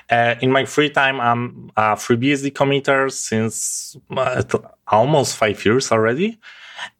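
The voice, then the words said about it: Polish accent. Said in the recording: “I'm from Poland, so my accent may be quite different than you used to.”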